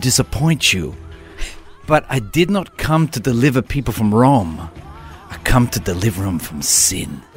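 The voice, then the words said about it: Put-on accent slipping European, mafia-like. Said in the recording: “It did slip a little bit European. ... A little bit mafia there. ... Not to be Russian, mafia. ... what you lost in accent points, you made up in passion of delivery.”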